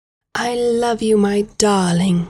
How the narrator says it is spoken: she purred

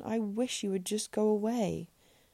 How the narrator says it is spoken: exclaimed in exasperation

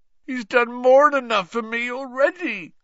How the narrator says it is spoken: groaned Hagrid

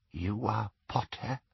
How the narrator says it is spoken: she whispered

